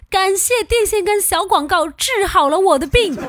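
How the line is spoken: Loud shout. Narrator (Chinese): 在操场上大喊

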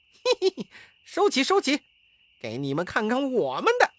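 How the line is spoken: Laughing. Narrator (Chinese): 悟空 便笑着说

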